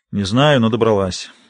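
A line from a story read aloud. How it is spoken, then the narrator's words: Tired reply. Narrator (Russian): устало отвечает Генри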